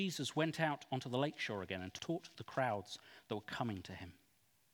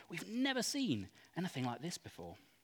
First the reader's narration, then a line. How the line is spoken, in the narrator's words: They were all amazed and praised God, exclaiming